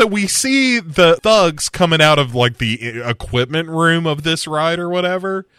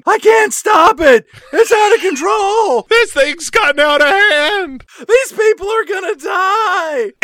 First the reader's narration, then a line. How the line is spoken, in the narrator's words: A teenage employee at the controls of a ride that is spinning wildly out of control, screaming